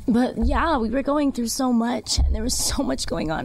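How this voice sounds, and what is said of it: Emotional, choked-up voice. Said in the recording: “I'm literally getting emotional”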